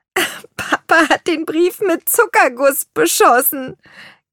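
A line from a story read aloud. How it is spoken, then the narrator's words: Giggling. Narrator (German): kicherte Lea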